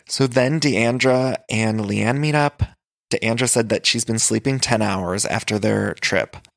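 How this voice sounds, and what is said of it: Hoarse voice with vocal fry. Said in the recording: “tell my voice is a little hoarse today? ... It's been hoarse. ... I have a little extra vocal fry”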